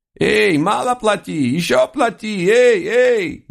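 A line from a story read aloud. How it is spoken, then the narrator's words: Furious squeal, loud. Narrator (Russian): яростно размахивая копытами, визжал на всю улицу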